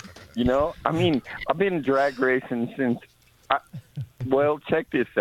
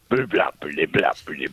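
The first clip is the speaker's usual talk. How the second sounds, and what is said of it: Imitates a rumbling idling car engine. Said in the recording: “That's the best high-rise cam impersonation I've ever heard ... That is the best high-rise cam idling ... what your high-rise cam sounds like at the red light”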